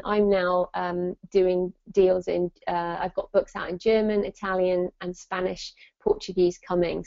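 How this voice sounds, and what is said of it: British English accent. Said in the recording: “you probably tell from my accent, I'm in the UK”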